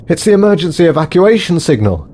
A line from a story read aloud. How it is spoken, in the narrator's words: gasped Davison